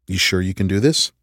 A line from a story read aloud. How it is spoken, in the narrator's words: I asked quietly